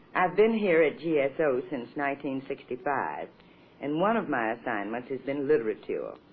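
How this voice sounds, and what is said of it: Mississippi Southern accent. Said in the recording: “nobody's going to mistake this for a Brooklyn accent. It's Mississippi”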